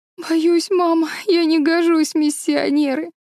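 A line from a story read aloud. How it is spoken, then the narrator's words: Sobbing. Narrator (Russian): всхлипнула Мэри Голд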